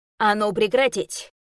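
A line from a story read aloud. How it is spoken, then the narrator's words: Barked from above. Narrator (Russian): Гаркнули надо мной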